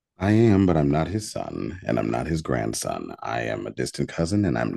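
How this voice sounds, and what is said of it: Deep voice. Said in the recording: “Y'all hear that voice, that deep voice?”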